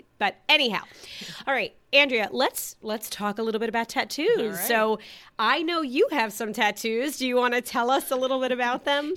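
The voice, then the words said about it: Strange-sounding voice, lingering laryngitis. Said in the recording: “I'm just getting over a cold... I'm almost past the laryngitis. But if my voice sounds a little strange”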